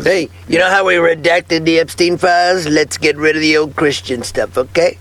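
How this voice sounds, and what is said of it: Comic character voice of object. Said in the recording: “Was that a Sharpie impression? ... That was a Sharpie impression.”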